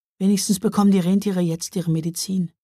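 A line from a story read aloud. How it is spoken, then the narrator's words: Sighed. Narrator (German): seufzte Mila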